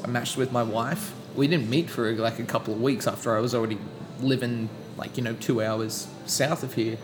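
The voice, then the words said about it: Speaks with a foreign accent. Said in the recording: “let's make use of this accent a little bit ... using my accent to my advantage”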